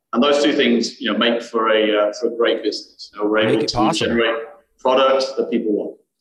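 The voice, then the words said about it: British accent, Birmingham origin. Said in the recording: “as you can tell from my accent ... From the UK originally, born in Birmingham, UK ... found my way to North Wales”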